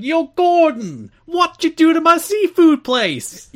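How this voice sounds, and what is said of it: Italian-American accent. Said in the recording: “you have to commit to the accent ... Italian-American accent”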